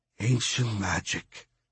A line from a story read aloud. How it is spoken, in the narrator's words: he whispered